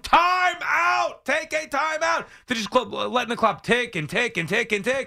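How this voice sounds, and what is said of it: Yelling loudly. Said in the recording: “I'm yelling,”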